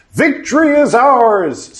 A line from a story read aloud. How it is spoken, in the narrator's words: some of the men shouted